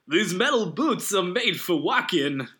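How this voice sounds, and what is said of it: Christopher Walken impression. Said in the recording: “Christopher Walken. ... if you did the voice.”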